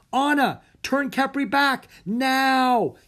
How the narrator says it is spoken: he yelled

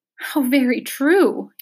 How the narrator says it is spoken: he sobbed

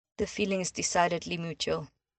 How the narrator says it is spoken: Hermione said in a dry voice

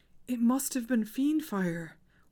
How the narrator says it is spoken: whimpered Hermione

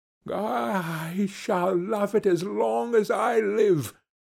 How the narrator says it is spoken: cried Scrooge

